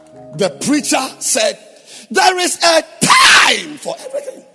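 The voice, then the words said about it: Shouting preacher voice. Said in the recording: “I'm sorry I'm shouting.”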